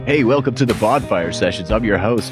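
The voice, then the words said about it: Corny radio announcer voice. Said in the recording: “I could never do that radio voice ever. So corny.”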